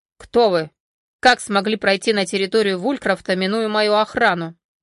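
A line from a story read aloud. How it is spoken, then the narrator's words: Stern question. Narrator (Russian): строго спросил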